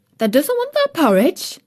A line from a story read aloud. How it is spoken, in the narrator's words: Martha exclaimed incredulously